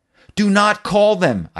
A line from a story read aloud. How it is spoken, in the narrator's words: shouted